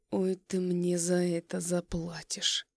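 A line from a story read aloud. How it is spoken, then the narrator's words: Menacing. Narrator (Russian): Это звучит грозно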